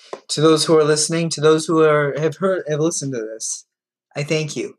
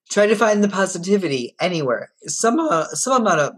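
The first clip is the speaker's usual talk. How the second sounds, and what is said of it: Voice cracks with emotion. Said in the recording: “my voice just cracked”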